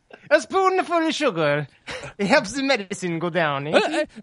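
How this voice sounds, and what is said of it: Exaggerated Italian-style European accent. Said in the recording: “my Italian Mary Poppins ... accent wanders into Borat territory ... It's like a Eurotrash accent.”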